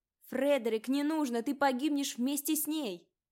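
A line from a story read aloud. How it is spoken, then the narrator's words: Shouted. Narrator (Russian): крикнул слуга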